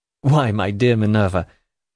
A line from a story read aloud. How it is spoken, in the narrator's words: answered Richard with his old gay laugh